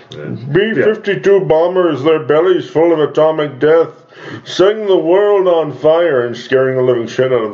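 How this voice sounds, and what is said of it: Dramatic news announcer voice. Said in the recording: “the news announcer voice”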